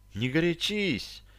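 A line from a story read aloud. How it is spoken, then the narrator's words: Gentle plea. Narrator (Russian): ласково попросила она меня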